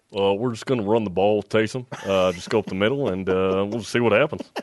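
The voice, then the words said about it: Imitates another person's voice. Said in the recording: “You should hear Jerem do his impersonation. It's actually pretty good.”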